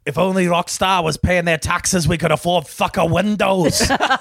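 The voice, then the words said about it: Weak put-on accent. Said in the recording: “I'm not good at the accent yet. I'm not good at the accent.”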